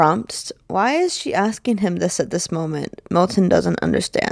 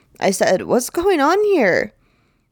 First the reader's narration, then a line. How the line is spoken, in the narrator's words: he shouts again